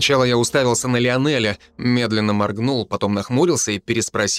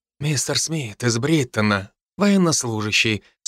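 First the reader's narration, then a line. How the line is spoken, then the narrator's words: Calm repetition. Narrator (Russian): спокойно повторил Патриций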